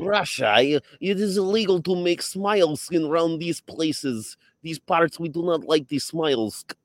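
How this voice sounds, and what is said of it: Borat impression, mock Eastern European accent. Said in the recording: “You're just doing Borat.”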